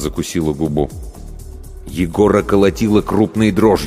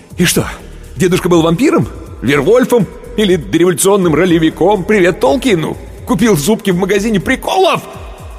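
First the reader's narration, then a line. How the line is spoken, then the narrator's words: Yelling. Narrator (Russian): Он уже орал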